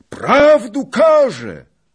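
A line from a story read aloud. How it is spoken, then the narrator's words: Loud. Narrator (Polish): rzekł głośno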